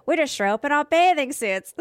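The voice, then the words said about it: Poor put-on Australian accent. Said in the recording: “This is a bad accent ... I am not a good Australian impersonator”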